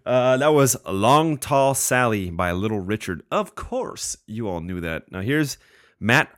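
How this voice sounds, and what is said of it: Usual voice. Nothing is said of it.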